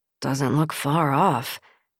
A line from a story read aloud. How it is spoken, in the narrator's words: the man muttered under his breath